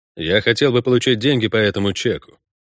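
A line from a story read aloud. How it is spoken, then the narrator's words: Dry. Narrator (Russian): сухо проговорил Геральт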